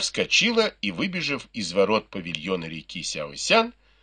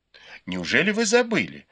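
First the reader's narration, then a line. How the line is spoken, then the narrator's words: Laughing. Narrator (Russian): засмеялась Цзэцзюань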